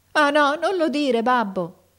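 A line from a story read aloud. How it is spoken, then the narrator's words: Son shouting, bursting into tears. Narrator (Italian): gridò il figliuolo scoppiando in pianto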